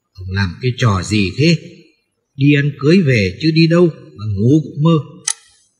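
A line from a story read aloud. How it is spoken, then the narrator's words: Terrified loud yell. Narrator (Vietnamese): hãi quá gào ầm lên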